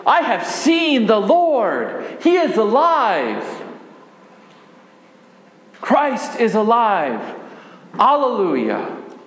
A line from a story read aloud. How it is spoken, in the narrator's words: I shouted with joy